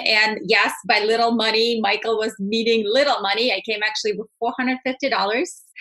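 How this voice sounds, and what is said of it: Russian accent. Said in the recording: “As you can tell from my accent, I'm not from Texas. I'm actually, born and raised in Russia”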